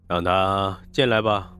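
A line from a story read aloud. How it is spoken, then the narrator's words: Flat, indifferent. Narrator (Chinese): 黄振义 声音淡淡的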